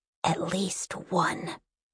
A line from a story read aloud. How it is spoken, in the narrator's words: The Princess in Blankets narrowed her eyes and whispered into the breeze